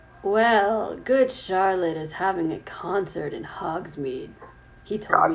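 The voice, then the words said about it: Emo-style character voice. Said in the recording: “legitimate Draco voice ... an amalgam of, like, emo ... Do the Dreamo voice.”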